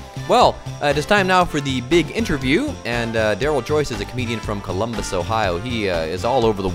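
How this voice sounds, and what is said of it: Usual voice. Nothing is said of it.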